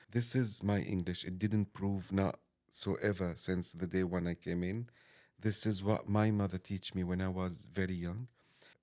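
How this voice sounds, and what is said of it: Accented non-native English. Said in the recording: “my daughters keep laughing at me and laughing at my accent”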